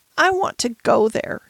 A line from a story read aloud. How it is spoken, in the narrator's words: cried